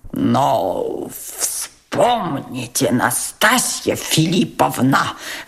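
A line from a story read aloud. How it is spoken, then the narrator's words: Stammering mutter. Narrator (Russian): запинаясь, пробормотал Тотский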